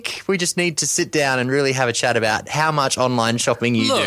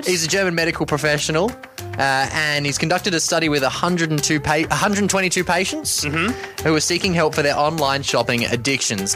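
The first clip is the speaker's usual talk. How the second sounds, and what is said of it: Put-on German accent. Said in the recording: “I shall go through the rest of this in a German accent.”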